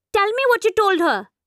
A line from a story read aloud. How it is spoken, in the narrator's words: snaps